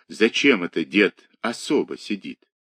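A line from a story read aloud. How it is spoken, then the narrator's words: Asked quietly. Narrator (Russian): Егорушка спросил тихо у Степки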